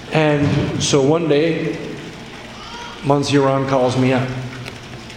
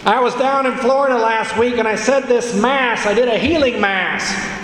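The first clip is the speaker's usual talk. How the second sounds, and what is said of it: Loud imitated New York accent. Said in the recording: “he speaks on the phone because he fears if he's in Buffalo, New York, and he's talking to Rome, he's got to be loud ... He's got his accent, you know, from New York.”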